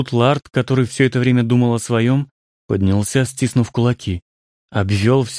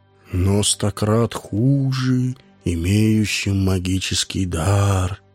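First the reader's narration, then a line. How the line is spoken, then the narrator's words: Quiet, reproachful. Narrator (Russian): тихо, укоризненно сказал Орвин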